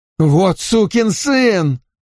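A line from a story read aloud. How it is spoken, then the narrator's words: Furious sudden yell. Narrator (Russian): Внезапно его пятнистое лицо побагровело еще больше, и он заорал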